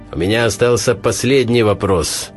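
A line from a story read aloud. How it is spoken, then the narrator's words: Loud shout to all. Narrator (Russian): громко крикнул Хохошуткин, обращаясь ко всем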